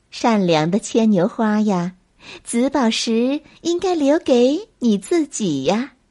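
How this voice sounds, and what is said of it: Sweet fairy voice. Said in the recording (Chinese): “用她甜甜的声音说”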